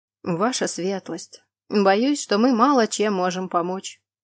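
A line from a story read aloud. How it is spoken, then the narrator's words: Gentle reply. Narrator (Russian): мягко откликнулся лорд Фингар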